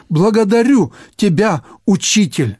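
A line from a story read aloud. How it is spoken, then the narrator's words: Exclaiming. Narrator (Russian): воскликнул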